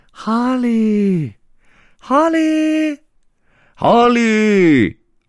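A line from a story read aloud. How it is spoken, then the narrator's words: Repeated distant calling. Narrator (Chinese): 有人在叫他的名字，一声接着一声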